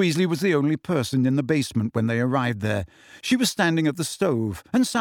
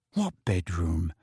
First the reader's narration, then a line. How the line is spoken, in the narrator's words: said Harry, dropping his voice to a whisper